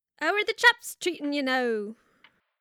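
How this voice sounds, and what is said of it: Failed Irish accent, sounds Australian. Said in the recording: “Does that mean I need your accent? ... That's not Irish ... They probably don't say it with an Australian accent.”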